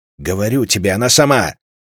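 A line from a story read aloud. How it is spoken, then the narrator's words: Snapping retort. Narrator (Russian): огрызнулся сюзерен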